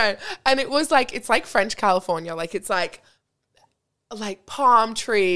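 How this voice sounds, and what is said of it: Usual voice. Nothing is said of it.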